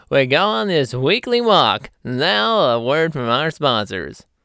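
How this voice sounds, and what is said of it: Announcer-style radio voice. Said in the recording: “There I go into that freaking radio voice again.”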